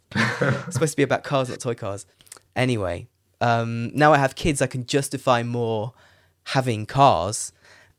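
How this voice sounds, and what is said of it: Crackly, tired late-night voice. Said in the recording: “Sorry for my voice... my voice is crackling a bit”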